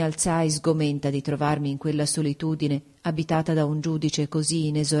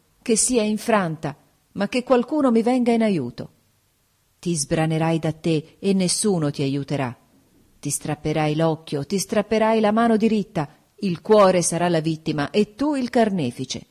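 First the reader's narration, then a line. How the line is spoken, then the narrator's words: Exclaimed. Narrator (Italian): esclamai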